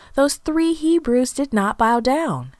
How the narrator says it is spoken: exclaimed

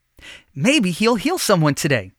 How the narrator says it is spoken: the young man said excitedly

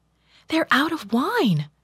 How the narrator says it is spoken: she told him anxiously

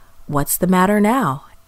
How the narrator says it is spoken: Abram asked

